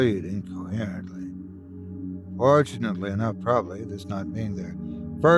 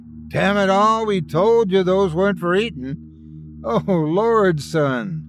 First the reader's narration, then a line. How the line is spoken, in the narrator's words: the man exclaimed